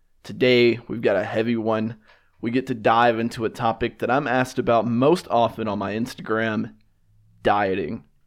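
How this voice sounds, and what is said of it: Raspy, deeper voice from illness. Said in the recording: “my voice sounds a little bit raspy, a little bit deeper, I'm kind of fighting a little sickness right now”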